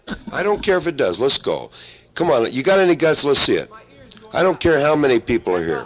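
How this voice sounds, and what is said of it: Loud yelling voice. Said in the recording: “your big loud voice is killing me ... I'm yelling.”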